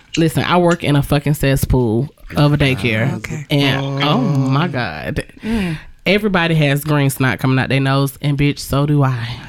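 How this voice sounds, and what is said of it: Sick, congested, deeper-sounding voice. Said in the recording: “I'm sorry if I sound a little under the weather ... you sound like a boy”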